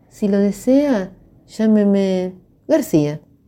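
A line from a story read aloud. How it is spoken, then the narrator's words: Cheerful, laughing voice. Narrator (Spanish): contestó con voz risueña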